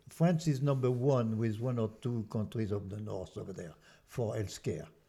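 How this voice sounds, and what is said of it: French accent. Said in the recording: “before being an American, I'm French. ... my accent doesn't trick. ... I thought you were from Belgium.”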